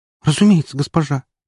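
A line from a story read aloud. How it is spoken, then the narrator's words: Girl's squeak. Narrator (Russian): пискнула девушка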